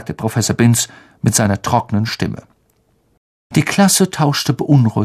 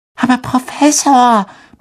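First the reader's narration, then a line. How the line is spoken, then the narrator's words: Squeaky high voice. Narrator (German): piepste Parvati Patel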